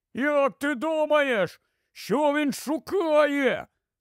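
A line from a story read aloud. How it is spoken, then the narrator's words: Shout. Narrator (Ukrainian): крикнув Рон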